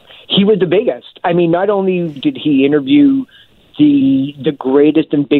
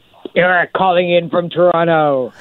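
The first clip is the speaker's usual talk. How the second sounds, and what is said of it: Larry King impression. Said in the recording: “my Larry King impression”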